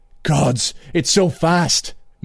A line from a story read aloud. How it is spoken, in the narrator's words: Moonglum gasped